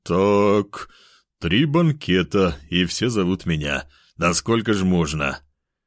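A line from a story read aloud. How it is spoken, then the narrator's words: Sighing, weary. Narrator (Russian): Мужчина вздохнул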